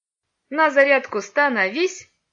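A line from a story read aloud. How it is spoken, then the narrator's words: Cheerful command. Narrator (Russian): весело скомандовал Илья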